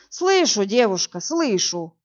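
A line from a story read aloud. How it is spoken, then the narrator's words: Sighing captain. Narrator (Russian): вздохнул капитан Галеев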